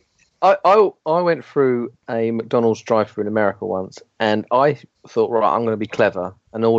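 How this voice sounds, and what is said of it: Usual voice. Nothing is said of it.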